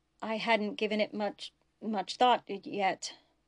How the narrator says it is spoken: Bashir stammered

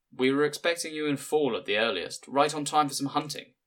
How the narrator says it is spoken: he said

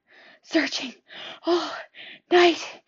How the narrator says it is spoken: gasped

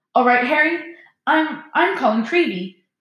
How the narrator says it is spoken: he said breathlessly

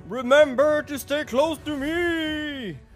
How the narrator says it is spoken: Fern, as he gets out of the inn, is going to shout

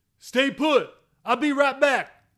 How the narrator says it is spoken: Collins hollered in his earmuff

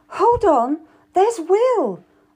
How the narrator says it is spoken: I cried out to George

